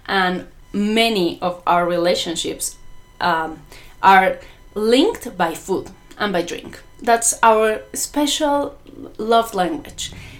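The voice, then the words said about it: Mexican accent speaking English. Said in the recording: “because of my accent. I'm not an English native speaker. I'm Mexican.”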